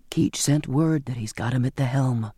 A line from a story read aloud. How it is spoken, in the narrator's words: Zachariah explained, his voice low